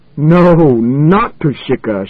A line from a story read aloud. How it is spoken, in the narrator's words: shouted Schwartz in wild derision